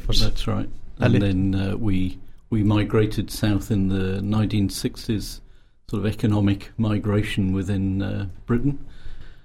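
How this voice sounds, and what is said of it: Northern English Yorkshire accent. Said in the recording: “I'm a Yorkshire lad, originally. ... I thought I recognised the northern accent.”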